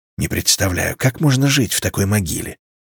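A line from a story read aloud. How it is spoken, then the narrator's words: Whispered. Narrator (Russian): шепнул Эмиль Савиньяк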